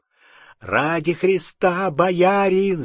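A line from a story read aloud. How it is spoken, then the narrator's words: Shouted. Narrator (Russian): закричал Алексей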